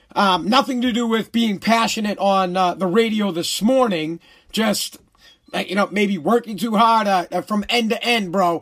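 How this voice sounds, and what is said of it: Hoarse, strained voice. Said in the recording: “My voice is a little hoarse, as you can tell. Struggling to talk a little bit.”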